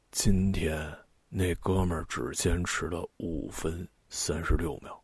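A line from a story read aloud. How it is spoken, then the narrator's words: Sleepy, slightly hoarse voice. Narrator (Chinese): 用刚睡醒、微微有些沙哑的声音…说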